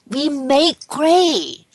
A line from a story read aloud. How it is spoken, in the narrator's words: Timmy exclaimed